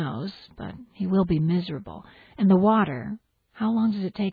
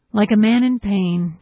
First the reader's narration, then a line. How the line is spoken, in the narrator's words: Joe moans loudly